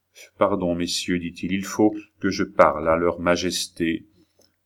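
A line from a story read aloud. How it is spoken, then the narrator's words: Gentle, firm, calm. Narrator (French): sombre et calme, d'une voix douce et ferme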